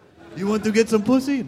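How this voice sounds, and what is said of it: Weird mixed foreign put-on accent. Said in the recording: “I just assigned him a weird accent. ... what was that, Borat? ... I have a weird mixture accent.”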